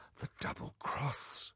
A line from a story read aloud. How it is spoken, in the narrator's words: whispered Polly